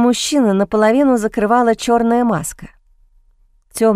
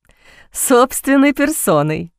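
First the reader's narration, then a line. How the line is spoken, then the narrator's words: Laughing. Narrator (Russian): рассмеялся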